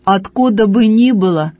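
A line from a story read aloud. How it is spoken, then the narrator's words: Angry. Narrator (Russian): отвечал парень сердито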